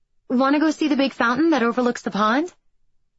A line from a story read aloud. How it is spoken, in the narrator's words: I asked brightly